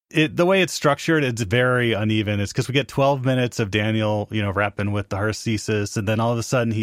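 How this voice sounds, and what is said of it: Usual voice. Nothing is said of it.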